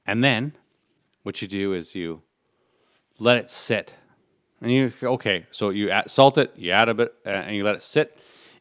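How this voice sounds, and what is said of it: Enthusiastic science-teacher explaining voice. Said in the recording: “your science teacher voice ... Very enthusiastic.”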